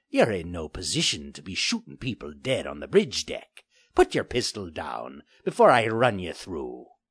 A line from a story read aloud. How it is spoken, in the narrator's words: growled menacingly